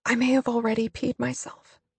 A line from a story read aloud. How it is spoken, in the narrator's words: I say tearfully